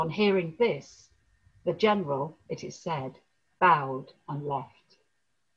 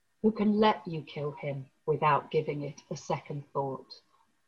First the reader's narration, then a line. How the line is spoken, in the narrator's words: replied the monk calmly